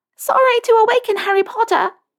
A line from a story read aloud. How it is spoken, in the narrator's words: she exclaims